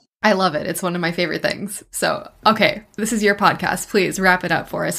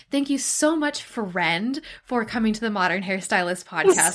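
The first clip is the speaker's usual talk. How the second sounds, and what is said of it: Imitates another person, enunciated delivery. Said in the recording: “Is this your impression of me? ... I love the enunciation of friend.”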